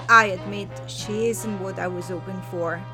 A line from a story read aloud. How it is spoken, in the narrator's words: he paused and added in a quiet tone, almost apologetically